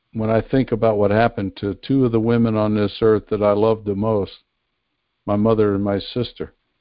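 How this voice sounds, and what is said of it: Choked-up, emotional voice. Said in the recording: “I'm getting a little choked up here. ... I get emotional,”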